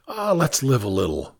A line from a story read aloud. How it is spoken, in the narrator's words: I said